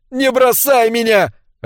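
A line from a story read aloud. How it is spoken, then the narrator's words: Sobbing plea. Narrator (Russian): рыдала охотница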